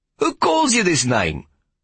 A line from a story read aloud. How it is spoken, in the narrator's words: Mevrouw interrupted sharply